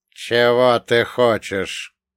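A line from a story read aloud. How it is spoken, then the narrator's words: Creaky rasp. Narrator (Russian): проскрипел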